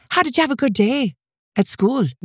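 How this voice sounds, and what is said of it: Put-on Irish accent, near perfect. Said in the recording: “I get a near perfect Irish accent ... practice your Irish accent ... it was flawless”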